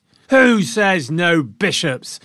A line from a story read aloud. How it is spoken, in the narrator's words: crowd roared back